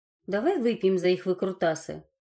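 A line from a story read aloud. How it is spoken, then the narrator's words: Laughing cook. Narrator (Russian): засмеялась повариха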